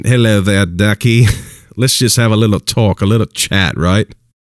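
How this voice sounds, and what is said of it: Put-on British accent. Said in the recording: “in his British accent”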